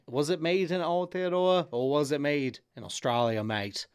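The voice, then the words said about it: Put-on Australian accent. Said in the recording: “my Australian accent ... I think that is a perfect accent”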